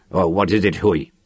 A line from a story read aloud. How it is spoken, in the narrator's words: Lannon demanded irritably